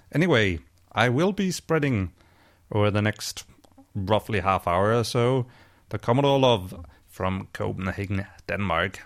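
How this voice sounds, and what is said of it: Voice altered by a cold. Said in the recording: “my voice sounds a bit different today, it's because I'm recovering from a case of the common cold”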